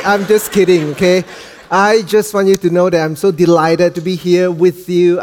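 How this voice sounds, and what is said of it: Malaysian accent. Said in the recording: “this is the Malaysian accent”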